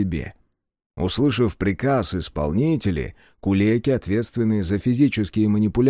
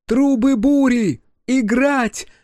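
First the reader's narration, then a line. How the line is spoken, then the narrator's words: Musician shouting out. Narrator (Russian): выкрикнула Сами, главный музыкант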